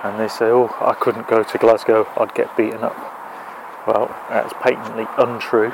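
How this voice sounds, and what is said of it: English accent. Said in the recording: “from my accent you can probably tell that I'm an Englishman”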